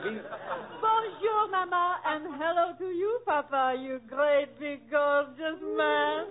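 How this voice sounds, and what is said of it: French accent. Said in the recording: “that French accent”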